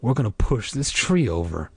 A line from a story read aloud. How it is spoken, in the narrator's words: I whispered with so much confidence that I surprised myself